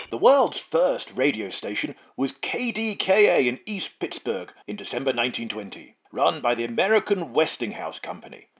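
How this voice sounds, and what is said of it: Old-fashioned radio announcer voice. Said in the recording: “old-fashioned radio voice”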